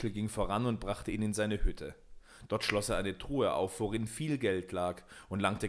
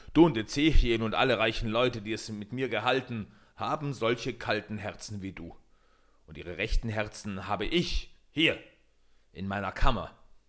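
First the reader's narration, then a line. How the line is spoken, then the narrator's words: Annoyed call. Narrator (German): rief Michel unmutig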